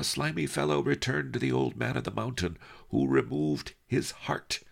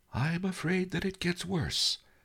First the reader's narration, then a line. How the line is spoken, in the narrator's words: Master Lee sighed